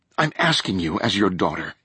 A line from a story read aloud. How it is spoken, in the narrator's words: Rachel pleaded